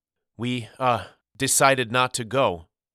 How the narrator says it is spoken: Walter stammered

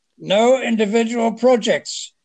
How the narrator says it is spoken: Madame Brevet realized she'd been fitted up, shouted

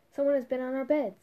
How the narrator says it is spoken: the dwarves cried

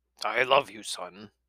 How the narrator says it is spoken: he muttered

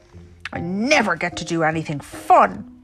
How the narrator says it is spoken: Little Rabbit yelled

